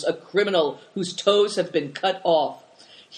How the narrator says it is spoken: cried Tolis

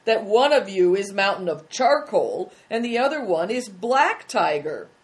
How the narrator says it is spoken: cried one of them

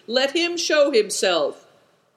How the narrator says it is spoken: shouted Good Fortune

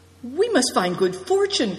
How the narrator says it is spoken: cried Christian

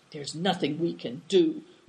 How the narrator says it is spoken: whispered the second soldier

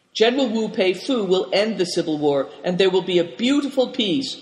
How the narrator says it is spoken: cried Big Tiger

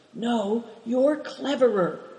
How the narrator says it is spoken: whispered Christian

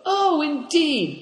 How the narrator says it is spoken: cried Moonlight

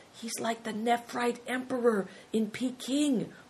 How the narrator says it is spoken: whispered Big Tiger

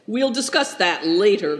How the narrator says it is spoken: growled Nidong

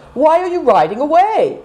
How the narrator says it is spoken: cried Seven Stars

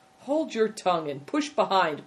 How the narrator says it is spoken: cried Good Fortune

